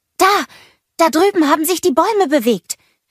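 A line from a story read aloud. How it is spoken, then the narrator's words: Calling out. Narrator (German): rief Anna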